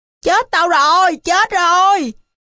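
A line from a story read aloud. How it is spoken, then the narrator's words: Terrified scream. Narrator (Vietnamese): Dư kinh hãi, nó hét lên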